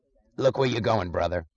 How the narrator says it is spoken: snarled some voice

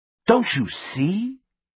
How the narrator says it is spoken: he asked dramatically

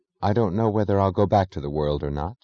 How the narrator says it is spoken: she said soberly, but her voice was trembling with subdued violence, which was pure gaiety

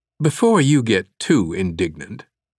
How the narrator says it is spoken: replied, her tone hardening

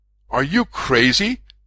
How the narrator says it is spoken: George exclaimed

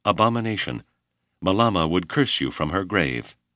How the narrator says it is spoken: this line of pagan reasoning so infuriated Abner that he cried in dismal voice

